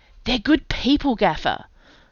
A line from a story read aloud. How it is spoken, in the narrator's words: Puck pleaded